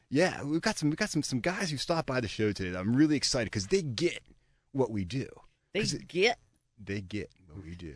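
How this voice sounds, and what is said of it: Exaggerated radio announcer voice. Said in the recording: “That's his radio voice. ... That's my intonation going on there.”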